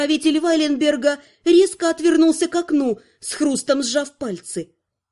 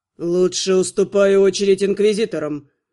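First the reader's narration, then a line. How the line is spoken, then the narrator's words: Growled through teeth. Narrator (Russian): сквозь зубы рыкнул Артур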